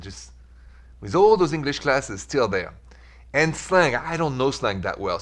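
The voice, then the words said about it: French accent. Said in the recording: “The accent is French ... Just the accent”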